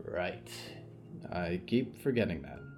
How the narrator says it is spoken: sighed

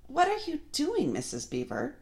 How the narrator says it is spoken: exclaimed Susan

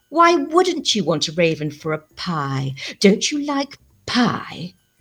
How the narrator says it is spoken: The way she said pie, drawn out and tempting, like a sigh

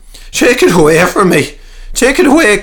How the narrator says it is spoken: cried, retreating at speed

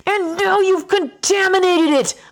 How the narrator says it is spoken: yell

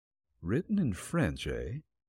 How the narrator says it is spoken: Nick muttered

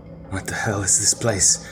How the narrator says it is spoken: asked Nikolai, finding the sound of his voice very unnerving

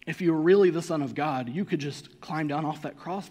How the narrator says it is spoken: they said

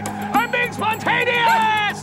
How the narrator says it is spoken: Truman shouting out the car window

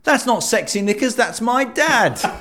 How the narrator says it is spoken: Jack, in the audience, shouted

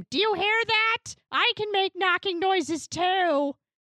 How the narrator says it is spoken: scream

